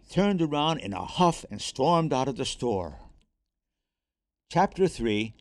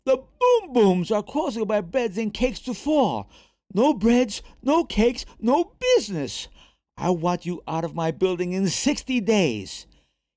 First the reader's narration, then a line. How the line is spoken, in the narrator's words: The Frenchman screamed